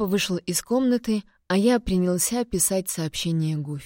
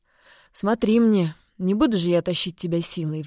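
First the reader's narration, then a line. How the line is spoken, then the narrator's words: Father's sigh. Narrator (Russian): вздохнул отец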